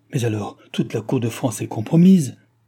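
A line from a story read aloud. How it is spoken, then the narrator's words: Exclaimed. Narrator (French): s'écria la duchesse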